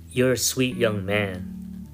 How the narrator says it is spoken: she said

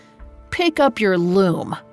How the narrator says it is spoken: Sophia snapped

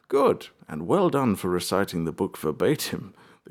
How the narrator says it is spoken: chuckled

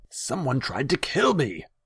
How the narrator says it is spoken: Tasiger blurted

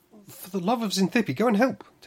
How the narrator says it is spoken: Tamsi cried

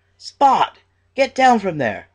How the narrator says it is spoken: the woman yells

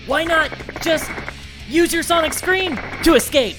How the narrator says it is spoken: Scream, the symbiote itself, laughed

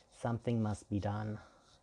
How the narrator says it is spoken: she said

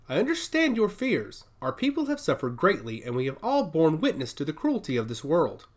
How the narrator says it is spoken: Craybell began, her voice steady and deliberate

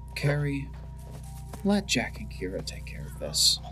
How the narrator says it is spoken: whispering under his breath

